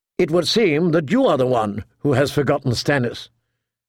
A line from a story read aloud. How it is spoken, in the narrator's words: Catelyn said, more sharply than she intended